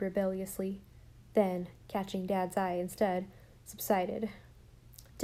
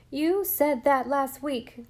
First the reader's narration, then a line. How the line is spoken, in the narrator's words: cried Jem indignantly